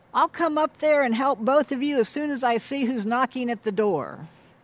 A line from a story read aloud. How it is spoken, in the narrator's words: She then turns and shouts to them